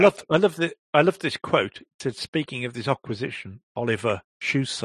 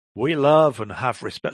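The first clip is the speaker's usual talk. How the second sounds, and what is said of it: Put-on American accent. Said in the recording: “Sorry, I'm doing an American accent.”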